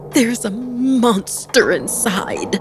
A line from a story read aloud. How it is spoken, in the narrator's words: crying wildly